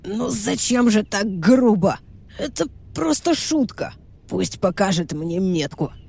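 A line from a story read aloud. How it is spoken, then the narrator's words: Hoarse rasp. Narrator (Russian): прохрипел Верзила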